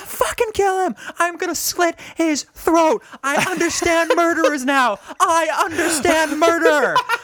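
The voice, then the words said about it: Screaming angry threats. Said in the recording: “I'm screaming.”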